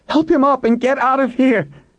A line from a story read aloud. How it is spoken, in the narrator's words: Kate screamed at them